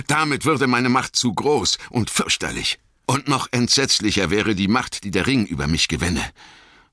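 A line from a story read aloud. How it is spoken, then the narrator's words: Called out. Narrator (German): rief Gandalf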